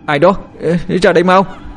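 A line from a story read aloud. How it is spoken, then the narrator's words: Stammering. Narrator (Vietnamese): lắp bắp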